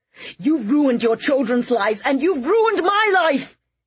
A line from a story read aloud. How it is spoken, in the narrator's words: He screamed, taking hold of Fiona by the shoulders and shaking her